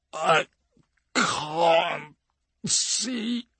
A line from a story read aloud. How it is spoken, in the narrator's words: he slurs